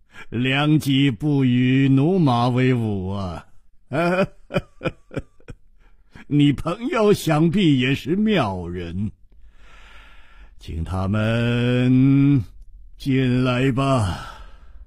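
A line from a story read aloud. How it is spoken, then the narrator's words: Laughing. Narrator (Chinese): 秋瓷王笑着说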